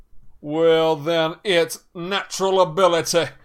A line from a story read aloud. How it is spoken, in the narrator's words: shouted Slughorn